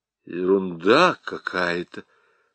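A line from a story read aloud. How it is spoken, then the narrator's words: Muttered. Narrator (Russian): пробормотал Ермолкин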